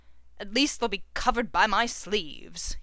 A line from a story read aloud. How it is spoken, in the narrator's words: he mutters